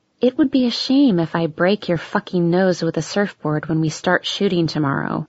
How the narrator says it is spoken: I leaned close to him, keeping my smile plastered on my face, and muttered

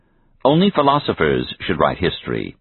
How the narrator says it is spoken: he said

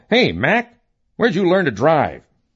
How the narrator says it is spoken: total strangers yell

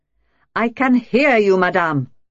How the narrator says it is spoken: I said harshly

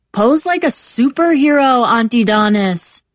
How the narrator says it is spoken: Perry shouts

